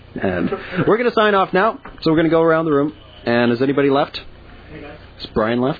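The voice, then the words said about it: Announcer-style radio voice. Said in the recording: “here's my radio voice”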